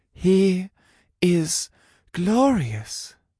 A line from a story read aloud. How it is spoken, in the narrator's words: Eloise breathed